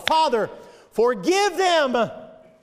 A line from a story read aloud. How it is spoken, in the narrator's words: cried to his Father